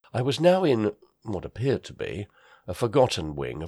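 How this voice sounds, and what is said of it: Usual voice. Nothing is said of it.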